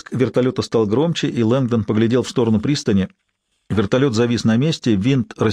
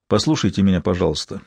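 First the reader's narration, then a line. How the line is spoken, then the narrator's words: Gentle. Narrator (Russian): мягко промолвил Лэнгдон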